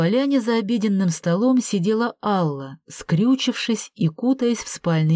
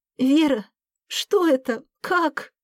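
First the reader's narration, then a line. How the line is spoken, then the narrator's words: Frightened question. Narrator (Russian): испуганно задала вопрос Алла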